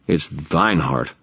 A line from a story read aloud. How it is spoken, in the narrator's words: I muttered